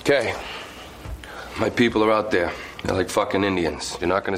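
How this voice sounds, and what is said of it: Good Boston accent. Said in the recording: “a very good masshole accent”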